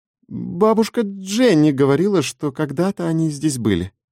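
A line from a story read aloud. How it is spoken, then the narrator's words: Hesitant female reply. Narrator (Russian): неуверенно ответила Лиззи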